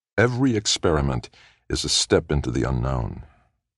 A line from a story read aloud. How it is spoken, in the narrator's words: Little John said softly